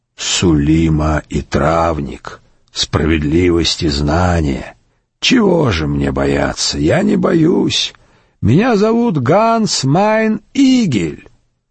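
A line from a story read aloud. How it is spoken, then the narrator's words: Hoarse croak, creature. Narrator (Russian): существо прохрипело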